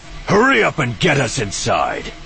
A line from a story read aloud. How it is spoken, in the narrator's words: Scourge shouted